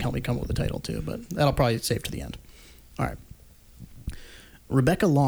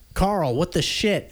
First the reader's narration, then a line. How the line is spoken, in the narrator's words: she yelled